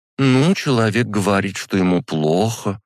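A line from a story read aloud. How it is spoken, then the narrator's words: Hesitant. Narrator (Russian): неуверенно начала-то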